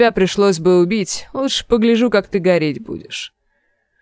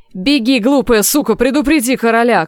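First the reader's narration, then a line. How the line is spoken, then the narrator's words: Shouted. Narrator (Russian): крикнул сир Клейтон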